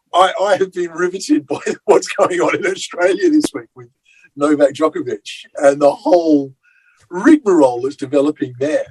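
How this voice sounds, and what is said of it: Australian accent. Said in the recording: “I'm Australian... You can't tell by my accent or anything.”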